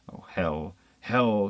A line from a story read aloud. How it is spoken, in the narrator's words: thought bitterly